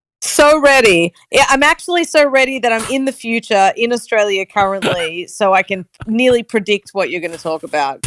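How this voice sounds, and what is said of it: Strong Australian accent. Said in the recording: “my Australian accent's going to be extra strong”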